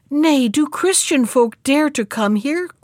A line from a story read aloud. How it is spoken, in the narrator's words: cried the second princess